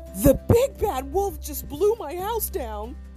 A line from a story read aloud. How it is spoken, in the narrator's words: Barnaby sobbed